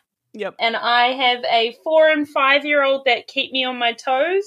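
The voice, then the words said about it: New Zealand accent. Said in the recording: “your accent ... I'm originally from New Zealand, but I'm living in Sydney, Australia now. Yes, we do have distinctly different accents”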